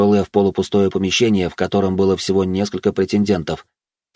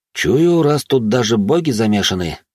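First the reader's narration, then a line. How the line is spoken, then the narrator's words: Sigh. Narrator (Russian): вздохнул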